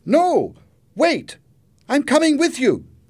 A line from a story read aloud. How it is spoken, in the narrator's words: Jenny shouted